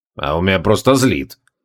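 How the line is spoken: Gloomy. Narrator (Russian): мрачно ответил креол

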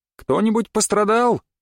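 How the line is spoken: Shouted. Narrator (Russian): крикнул он

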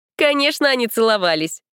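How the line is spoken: Laughing speech. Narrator (Russian): засмеялась Лерка

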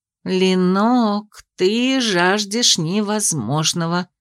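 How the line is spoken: Philosophical drawl. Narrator (Russian): философски протянула подруга

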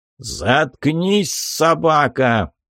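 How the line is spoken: Roaring from above. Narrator (Russian): проревел голос сверху

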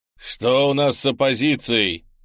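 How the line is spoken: Barking. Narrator (Russian): рявкнул он на Пьемонта

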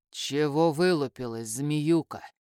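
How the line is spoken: Through gritted teeth. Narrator (Russian): Процедил сквозь зубы Руслан

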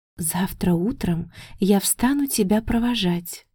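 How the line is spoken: Whispering in ear. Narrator (Russian): тихо шепнула на ухо

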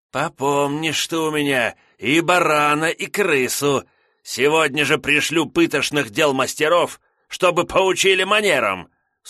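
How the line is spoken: Menacing, through teeth. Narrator (Russian): с угрозой процедил брат Лотарь

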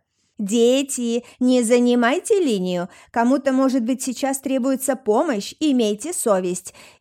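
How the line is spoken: Hysterical female shouting. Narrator (Russian): истерично кричал женский голос

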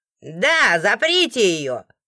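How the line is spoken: Shouted, kind voice. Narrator (Russian): выкрикнул кто-то очень добрый

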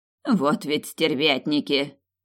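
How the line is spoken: Snorting. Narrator (Russian): фыркнула Мария Терезия

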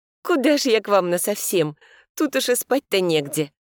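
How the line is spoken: Cheerful voice. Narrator (Russian): веселым голосом ответила ему

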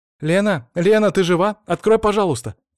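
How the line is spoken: Shouted from behind door. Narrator (Russian): закричали с той стороны голосом Вари

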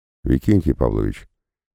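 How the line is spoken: Very calm. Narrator (Russian): произнес я, наконец, очень спокойно

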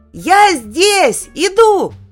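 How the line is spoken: Shouted. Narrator (Russian): закричал Петя

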